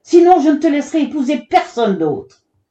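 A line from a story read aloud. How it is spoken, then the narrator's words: Shouting again. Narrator (French): cria-t-il encore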